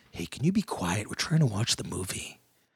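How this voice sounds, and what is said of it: Deep, quiet, menacing voice. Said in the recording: “just a really deep voice. ... I will try to put on my most scary sounding voice and just be so quiet, unassuming, and Liam Neeson-y.”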